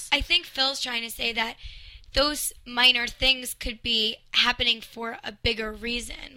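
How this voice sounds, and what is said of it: New York accent. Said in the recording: “I have an accent from New York.”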